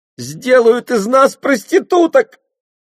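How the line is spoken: Shriek. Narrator (Russian): взвизгнула Ола и зашлась в рыданиях

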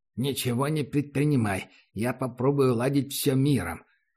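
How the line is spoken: Through gritted teeth. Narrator (Russian): процедил сквозь зубы проводник

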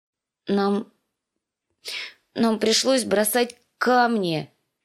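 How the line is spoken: Unhappy voice. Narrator (Russian): сказала Ария несчастным голосом

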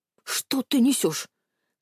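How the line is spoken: Old man's hiss. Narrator (Russian): прошипел дед

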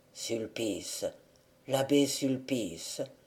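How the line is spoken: Wounded man's murmur. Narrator (French): murmura le blessé

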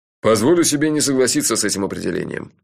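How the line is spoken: Scornful snort, boss. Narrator (Russian): фыркнул шеф

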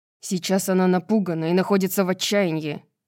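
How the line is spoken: Angry. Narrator (Russian): сердито ответил русалу Флинн

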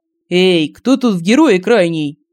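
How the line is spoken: Playful shout. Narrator (Russian): задорно крикнул в далекий потолок Семен

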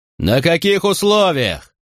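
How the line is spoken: Shouted. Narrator (Russian): крикнул Макрон

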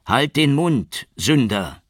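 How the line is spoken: Cold call, judge. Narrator (German): rief der Richter kalt

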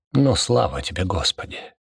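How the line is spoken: Mumbling. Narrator (Russian): пробормотал Дёготь, вздрогнув вместе со стенами

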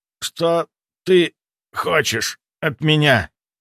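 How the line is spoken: Strained, forced out. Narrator (Russian): С огромным усилием выдавил

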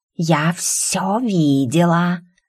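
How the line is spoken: Hiss from below. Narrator (Russian): раздалось шипение снизу

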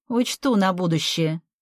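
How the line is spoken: Muttering. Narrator (Russian): пробурчала подруга

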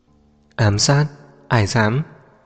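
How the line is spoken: Cold laugh. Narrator (Vietnamese): Liệt bật cười lạnh

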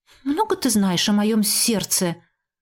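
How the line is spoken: Grumbling. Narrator (Russian): проворчала

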